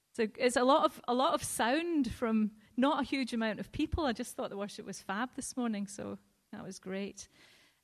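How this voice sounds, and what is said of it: Glaswegian Scottish accent. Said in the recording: “I do not have a Teesside accent. I don't even have an English accent, and that's because I am actually from Glasgow.”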